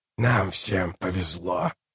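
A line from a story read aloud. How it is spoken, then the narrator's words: Muttered. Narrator (Russian): пробормотал Калор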